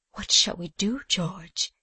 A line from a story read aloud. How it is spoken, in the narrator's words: said Eliza faintly